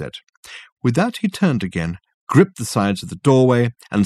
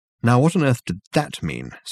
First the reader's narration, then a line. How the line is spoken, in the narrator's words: said Dirk, irritably